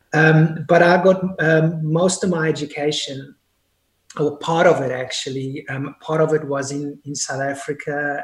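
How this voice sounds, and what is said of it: Mixed non-native English accent. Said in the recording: “your accent is not you're typically American or typically English... by birth, I'm Polish... By nationality, I'm actually British... by accent, I'm definitely confused and unique”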